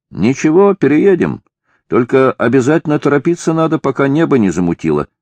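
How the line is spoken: Calm reply. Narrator (Russian): ответил уже спокойно Афанасий

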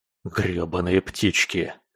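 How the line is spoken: Grumble. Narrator (Russian): проворчал

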